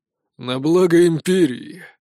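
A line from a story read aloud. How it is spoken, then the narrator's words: Heavy sigh. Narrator (Russian): Полковник тяжко вздохнул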